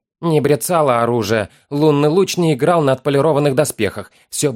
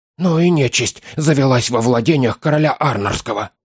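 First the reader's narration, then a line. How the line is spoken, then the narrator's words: Whisper. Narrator (Russian): сказал он шепотом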